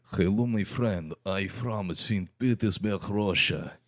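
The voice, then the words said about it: Put-on Russian accent. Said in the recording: “I've fooled some Russian people in the past with my Russian accent. You got to tell me if it's good. ... That's not bad. ... Dude, that's pretty good.”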